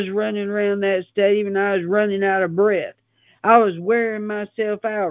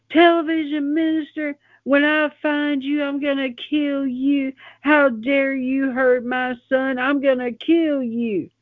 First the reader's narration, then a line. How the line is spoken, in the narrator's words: I was screaming